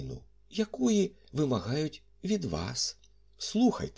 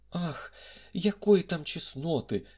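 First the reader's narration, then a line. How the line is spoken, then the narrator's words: Cry. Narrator (Ukrainian): скрикнула прекрасна Сент-Ів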